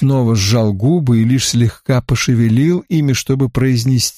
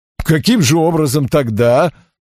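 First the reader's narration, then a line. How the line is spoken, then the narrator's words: Bursting laughter. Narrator (Russian): Вукчич расхохотался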